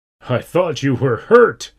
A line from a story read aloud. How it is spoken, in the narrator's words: he laughed